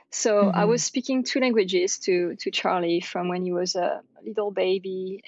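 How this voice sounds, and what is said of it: French accent. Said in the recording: “I'm French, you can probably hear my accent”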